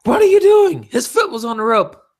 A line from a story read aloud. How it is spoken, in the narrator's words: David yells at Tommy Young